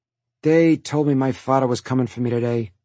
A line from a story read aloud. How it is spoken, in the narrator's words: he mumbled